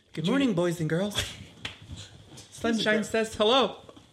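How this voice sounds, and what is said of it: A good character impression. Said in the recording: “That was like, good at impression.”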